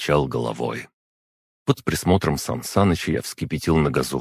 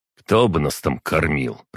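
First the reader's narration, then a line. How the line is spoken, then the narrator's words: Grumbling. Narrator (Russian): проворчал Александров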